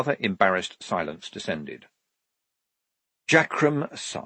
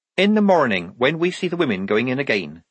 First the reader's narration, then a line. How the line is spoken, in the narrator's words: said Polly